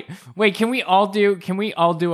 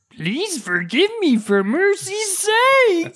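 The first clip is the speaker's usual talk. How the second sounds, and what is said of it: Imitated character voice. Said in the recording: “our best kappa impression ... That was a good Willow impression right there.”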